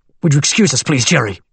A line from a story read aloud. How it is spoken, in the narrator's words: Jenkins snapped at the lawyer